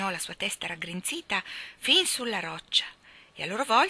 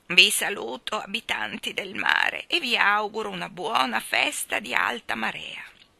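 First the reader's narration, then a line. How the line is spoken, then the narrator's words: Majestic, cracked bell-like voice. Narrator (Italian): cominciò maestosamente con una voce da vecchia campana rotta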